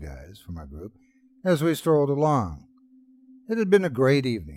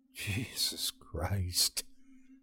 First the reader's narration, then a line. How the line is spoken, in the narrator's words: I muttered under my breath